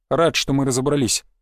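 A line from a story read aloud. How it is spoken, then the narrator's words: Dry, curt. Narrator (Russian): сухо сказал я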